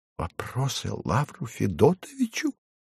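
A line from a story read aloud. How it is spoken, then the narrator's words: Shaken muttering. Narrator (Russian): бормотал потрясенный Фарфоркис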